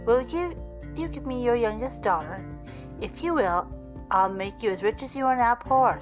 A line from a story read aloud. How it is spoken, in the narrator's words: said the bear